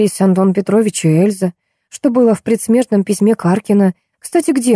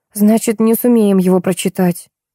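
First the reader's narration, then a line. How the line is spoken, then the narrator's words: Sighing. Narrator (Russian): вздохнула я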